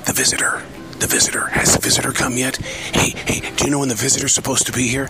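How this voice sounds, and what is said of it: Whispering. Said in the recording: “The big whisper is”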